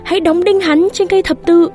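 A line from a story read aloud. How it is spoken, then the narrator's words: Crowd shouting. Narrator (Vietnamese): đám đông la lên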